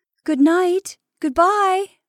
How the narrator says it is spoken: she cried from the top step, feeling that this self of hers was taking leave of them forever

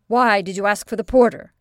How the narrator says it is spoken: said the medical student angrily

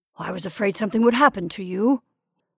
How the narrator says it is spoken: growled

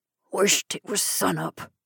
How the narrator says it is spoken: he murmured wearily

